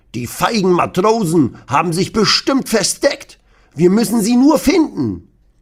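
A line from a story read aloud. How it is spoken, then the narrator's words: Blustering old man. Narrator (German): Opa Rudi poltert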